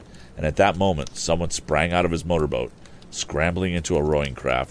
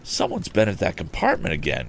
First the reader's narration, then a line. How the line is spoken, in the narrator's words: he murmured